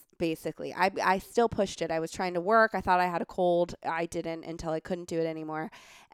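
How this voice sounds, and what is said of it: Husky, sick-sounding voice. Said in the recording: “you have a very sexy voice right now ... I'm trying not to cough phlegm”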